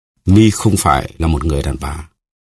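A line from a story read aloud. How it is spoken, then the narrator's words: Cold. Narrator (Vietnamese): Athos lạnh lùng nói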